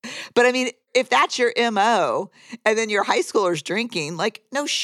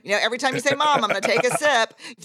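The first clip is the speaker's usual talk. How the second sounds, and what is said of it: Imitates another person's voice. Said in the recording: “That's a great impression of me.”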